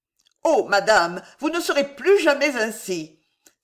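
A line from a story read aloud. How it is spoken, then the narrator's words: Amazed exclamation. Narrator (French): s'écria Prudence Servien, stupéfaite de la sublime beauté de sa maîtresse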